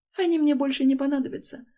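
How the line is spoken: Timid. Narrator (Russian): робко произношу я

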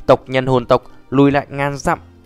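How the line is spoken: Loud booming shout. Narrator (Vietnamese): Trong biển máu mênh mông, hồn thiên đế lớn giọng quát

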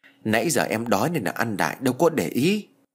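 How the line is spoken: Sheepish mutter. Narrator (Vietnamese): cô lẩm bẩm

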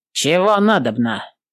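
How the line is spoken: Deliberately rough. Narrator (Russian): нарочито грубо сказал он

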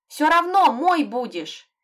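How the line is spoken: Shouting after someone. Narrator (Russian): крикнула ему вслед

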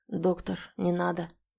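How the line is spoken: Quiet. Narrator (Russian): тихо сказал подошедший охранник

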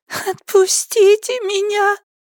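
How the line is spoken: Sobbing. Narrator (Russian): всхлипнула

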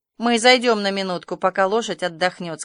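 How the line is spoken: Plain. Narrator (Russian): сказала Марила

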